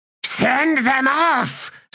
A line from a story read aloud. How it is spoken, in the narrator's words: snarled Sakara